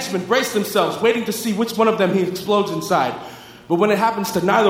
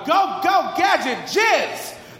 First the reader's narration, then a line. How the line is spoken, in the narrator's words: Climaxing, the inspector yells out